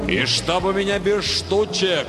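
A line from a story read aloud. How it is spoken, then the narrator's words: Booming farewell. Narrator (Russian): прогремел на прощание Нельзиул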